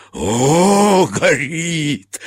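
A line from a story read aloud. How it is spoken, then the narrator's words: Shouting then laughing. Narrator (Russian): закричал и засмеялся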